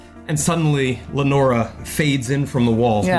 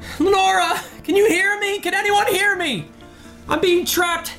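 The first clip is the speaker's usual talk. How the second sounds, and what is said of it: Screaming desperately. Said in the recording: “I'm screaming. I'm screaming for Lenora.”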